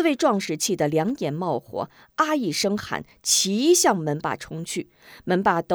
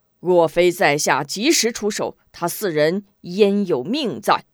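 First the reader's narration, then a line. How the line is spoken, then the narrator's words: Hearty laugh. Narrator (Chinese): 此人哈哈一笑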